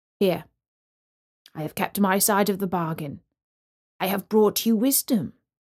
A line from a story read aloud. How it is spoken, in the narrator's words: said the man